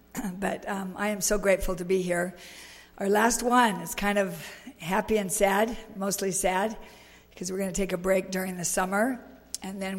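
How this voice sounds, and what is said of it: Congested voice from a cold. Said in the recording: “I have a little bit of a cold. ... With my unusual voice”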